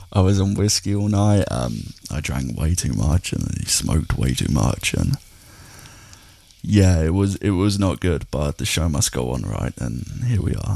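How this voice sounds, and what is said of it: Pained, worn-out voice. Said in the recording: “as you can probably tell by my voice, I am in pain”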